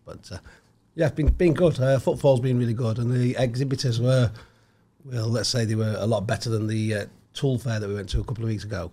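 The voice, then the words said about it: Slightly hoarse voice. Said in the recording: “that's why I'm a bit hoarse because obviously I can't speak very much”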